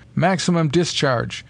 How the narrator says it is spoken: he cried

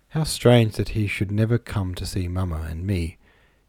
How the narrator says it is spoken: murmured

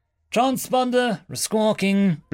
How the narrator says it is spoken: Lusulu called out from the EW station

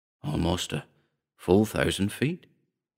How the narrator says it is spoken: he whispered in awe

